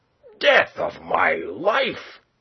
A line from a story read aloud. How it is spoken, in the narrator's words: cried